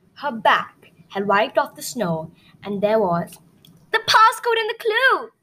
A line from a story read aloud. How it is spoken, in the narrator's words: she exclaimed